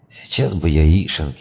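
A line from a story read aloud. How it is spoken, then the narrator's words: Sighing. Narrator (Russian): вздохнул Дрой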